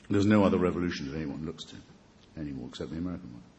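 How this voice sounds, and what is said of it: British accent. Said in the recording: “A British accent goes over well, though, in this country, doesn't it?”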